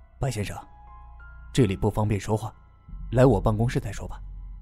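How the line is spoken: Low voice. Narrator (Chinese): 季君豪 低声的说道

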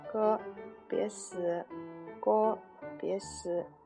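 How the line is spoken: Soft sleep mumbling. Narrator (Chinese): 他在睡梦中小声嘟囔

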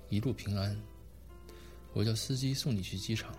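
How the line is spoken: Flat, detached. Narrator (Chinese): 淡淡的说

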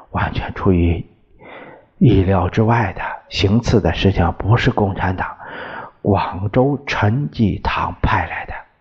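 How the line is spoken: Low-voiced report. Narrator (Chinese): 杨永泰低声报告

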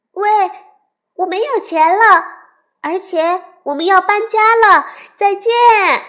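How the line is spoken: Loud. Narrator (Chinese): 咪咪大声的对猩猩说

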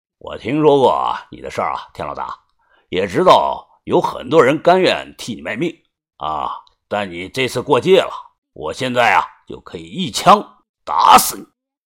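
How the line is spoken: Low, grim voice. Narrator (Chinese): 宋老二阴着脸，声音低沉的说道

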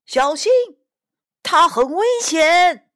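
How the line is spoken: Loud shout. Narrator (Chinese): 有人大声叫了起来

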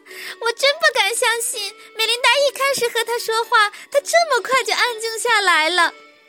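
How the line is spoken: Giggling. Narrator (Chinese): 杰尼夫咯咯笑着说

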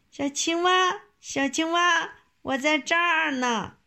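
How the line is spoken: Calling out. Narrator (Chinese): 忽然听到谁在叫它

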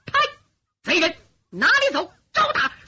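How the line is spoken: Loud shout. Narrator (Chinese): 树下有人大喊一声

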